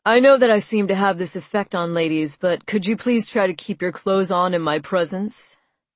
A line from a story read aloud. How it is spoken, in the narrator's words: I laughed sarcastically